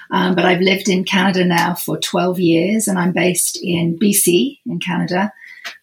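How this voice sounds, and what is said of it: British accent. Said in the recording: “I am from the UK, as you can probably tell from my accent”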